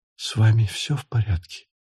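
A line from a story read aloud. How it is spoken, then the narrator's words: Whisper. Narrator (Russian): прошептала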